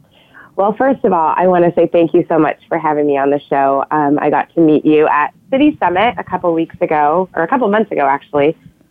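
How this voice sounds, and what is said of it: Sick, cracking voice. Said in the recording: “I am a little under the weather, so sorry if my voice is kind of cracking today”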